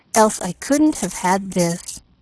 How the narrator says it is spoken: murmured

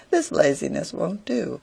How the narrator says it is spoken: says merrily

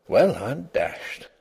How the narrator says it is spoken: he murmured aloud

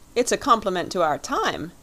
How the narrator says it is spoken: exclaimed the young man, with a little laugh in spite of himself

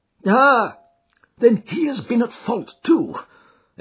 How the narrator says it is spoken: exclaimed Jones with evident satisfaction

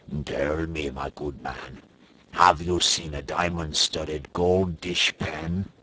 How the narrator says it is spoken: the frogman said with a haughty croak

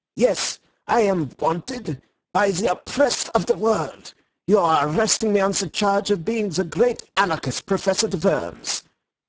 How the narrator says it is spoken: cried in a high German accent

